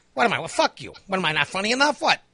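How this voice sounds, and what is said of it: Imitates another person's voice. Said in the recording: “you sound like Joe Pesci. ... Joe Pesci. I wish I could do a Joe Pesci impersonation.”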